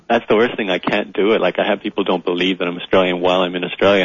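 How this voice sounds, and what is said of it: Canadian-sounding accent, not Australian. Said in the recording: “you don't talk funny. Are you sure you're not an imposter of an Aussie? ... they had the accent. Neither of them were born in Canada, but they did spend a lot of their formative years there. So I just picked up the accent”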